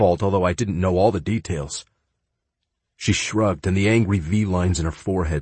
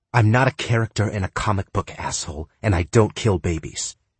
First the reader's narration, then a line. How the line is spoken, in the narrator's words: she snarled